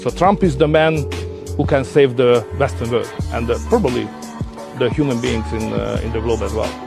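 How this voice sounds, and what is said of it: Foreign-accented English. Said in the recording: “I like that accent. ... I like how they mix words around”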